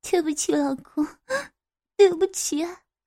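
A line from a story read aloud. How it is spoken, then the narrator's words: Quiet sobbing. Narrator (Chinese): 低声哭泣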